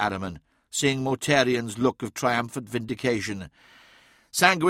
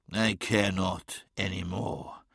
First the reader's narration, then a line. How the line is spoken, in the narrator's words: hissed Magnus